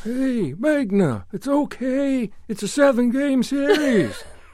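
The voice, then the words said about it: Bad Harry Carey impression. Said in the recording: “my very bad Harry Carey impersonation”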